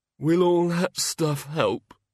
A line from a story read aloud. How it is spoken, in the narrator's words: mumbled